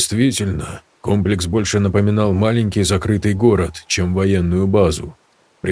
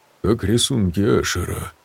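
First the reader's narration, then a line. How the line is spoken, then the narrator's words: Muttering. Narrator (Russian): пробормотал Виктор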